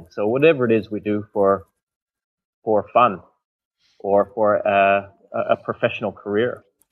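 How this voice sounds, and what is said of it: Canadian accent. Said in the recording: “for those of you who haven't guessed from the accent already, ... is from Canada”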